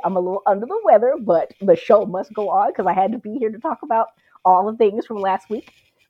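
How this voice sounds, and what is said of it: Stuffy, congested voice. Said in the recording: “if I sound a little stuffy.”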